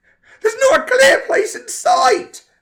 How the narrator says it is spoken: Frank screamed into the walkie-talkie

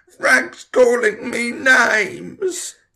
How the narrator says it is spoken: Tom shouted

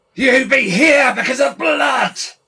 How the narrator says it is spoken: screamed

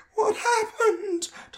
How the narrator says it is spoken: Tom asked, his voice sounding thin and scared

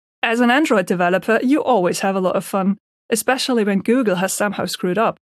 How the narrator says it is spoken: Benny joins in and starts to laugh

